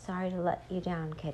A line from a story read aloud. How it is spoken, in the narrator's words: he said quietly